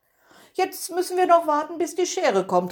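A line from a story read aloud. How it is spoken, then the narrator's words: Calling out. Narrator (German): rief es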